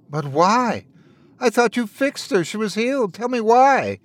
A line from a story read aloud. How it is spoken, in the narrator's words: Wendell begged